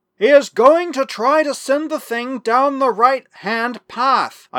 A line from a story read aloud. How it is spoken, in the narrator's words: I shouted into Bickley's ear